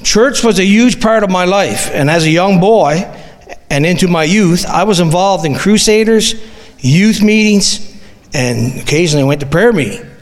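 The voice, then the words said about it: Newfoundland accent. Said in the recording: “if you can tell by my accent, I'm from Newfoundland”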